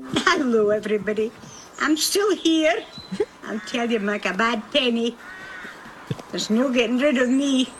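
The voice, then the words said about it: Elderly woman, Scottish accent. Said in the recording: “I just love this Scottish accent ... sweetest Scottish granny”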